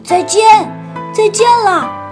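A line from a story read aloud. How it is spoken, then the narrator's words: Loud shout. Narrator (Chinese): 小泽菲尔大声喊着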